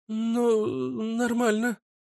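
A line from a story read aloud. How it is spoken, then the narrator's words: Stammering. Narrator (Russian): заикаясь, ответила Вика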